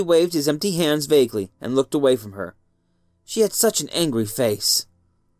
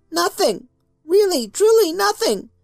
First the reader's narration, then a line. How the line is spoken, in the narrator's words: Bobby gasped as she shook